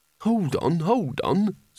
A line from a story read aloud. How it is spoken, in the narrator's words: said Rincewind urgently